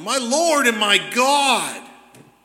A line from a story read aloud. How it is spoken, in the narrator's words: Thomas simply exclaims